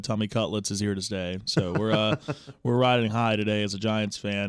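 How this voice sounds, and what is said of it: Slightly raspy voice. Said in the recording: “I'm a little raspy this morning”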